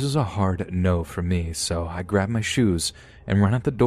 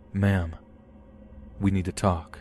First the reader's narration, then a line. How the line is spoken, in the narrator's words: He says in a low, calm voice